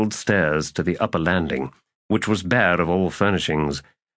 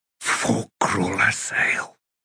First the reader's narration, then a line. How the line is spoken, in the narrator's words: he whispered